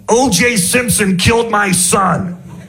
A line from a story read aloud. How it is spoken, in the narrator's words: The guy gets mad and screams